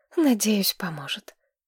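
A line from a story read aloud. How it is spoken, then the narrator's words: Sighing. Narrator (Russian): вздохнула Мэтчин Садден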